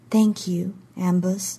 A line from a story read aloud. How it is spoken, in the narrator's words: she said softly